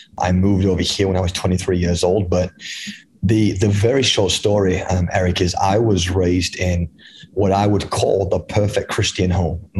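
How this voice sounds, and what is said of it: English accent. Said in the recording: “you got this incredible accent ... I'm definitely not from the United States. I was born and raised in England”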